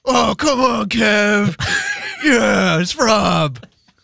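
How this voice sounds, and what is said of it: Loud, raspy, obnoxious voice. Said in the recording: “do a Rob impression ... just a loud ... Loud, obnoxious. ... Gotta rasp that voice up.”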